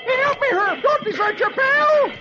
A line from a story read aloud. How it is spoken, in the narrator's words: Dagwood yells